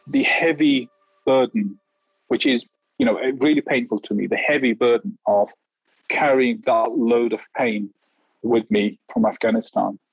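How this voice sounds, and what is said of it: Pashto-Persian accent with Midlands hint. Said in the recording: “you can hear that hint of the Midlands in his accent, mixed with the richness of the Persian and Pashto from his mother tongue”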